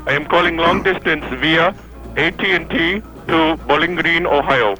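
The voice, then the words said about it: Indian-sounding accent. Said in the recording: “You have an Indian accent. ... you have an Indian accent.”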